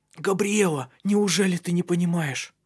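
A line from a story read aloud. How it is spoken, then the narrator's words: Hoarse whisper. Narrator (Russian): прошептал он хриплым голосом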